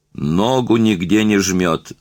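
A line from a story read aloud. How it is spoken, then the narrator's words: Smug dandyish voice. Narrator (Russian): ответил он голосом пижона в новых штиблетах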